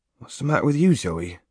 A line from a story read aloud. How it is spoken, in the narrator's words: he said anxiously